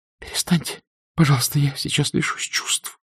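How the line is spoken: Faint whisper. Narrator (Russian): прошептала она

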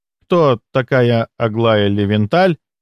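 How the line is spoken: Dazed, confused question. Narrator (Russian): растерянно спросил Ростислав, все еще находясь в трансе

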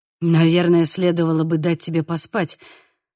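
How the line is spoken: Said with a sigh. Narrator (Russian): сказал и вздохнул

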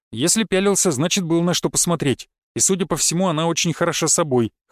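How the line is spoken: Wry snort. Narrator (Russian): хмыкнул я

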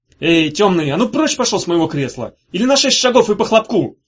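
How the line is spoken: Yell. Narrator (Russian): заорал он на Мефа

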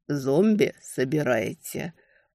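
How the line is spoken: Almost tender question. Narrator (Russian): Почти ласково переспросил Скальда

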